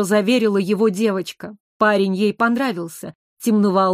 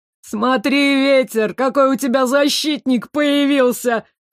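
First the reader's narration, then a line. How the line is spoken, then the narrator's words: Laughing voice from crowd. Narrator (Russian): Хохотал кто-то из толпы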